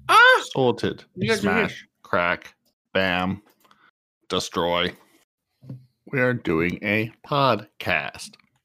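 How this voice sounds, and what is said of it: Robotic voice. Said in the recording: “you sound like a robot”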